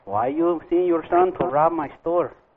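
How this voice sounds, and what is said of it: Put-on foreign accent, shifting. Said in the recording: “Good accent. From Italian to Spanish to Italian. ... you get like three different accents in one call”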